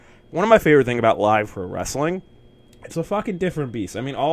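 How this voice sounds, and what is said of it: Usual voice. Nothing is said of it.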